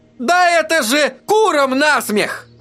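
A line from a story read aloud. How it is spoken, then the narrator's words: Shouting. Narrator (Russian): заорал тот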